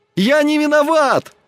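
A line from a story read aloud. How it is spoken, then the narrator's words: Desperate shouting. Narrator (Russian): кричал он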